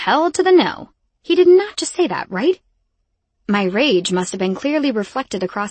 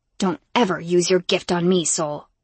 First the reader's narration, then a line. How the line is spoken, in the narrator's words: growled